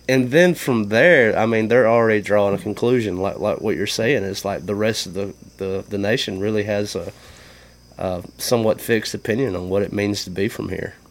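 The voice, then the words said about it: Mississippi Southern US accent. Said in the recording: “you don't carry an accent. ... You sound like you're from Mississippi.”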